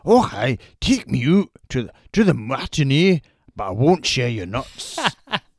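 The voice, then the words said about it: Put-on Scottish accent. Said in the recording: “Listen to the accent ... famously sound very much like that ... He's Scottish”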